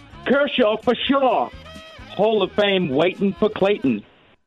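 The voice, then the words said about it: Put-on Boston accent. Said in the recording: “I got to do a Boston accent for this one.”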